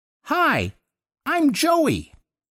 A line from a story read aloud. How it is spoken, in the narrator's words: the kid piped up out of nowhere in this reedy Looney Tunes sort of voice